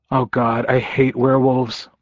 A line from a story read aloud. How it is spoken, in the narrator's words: I muttered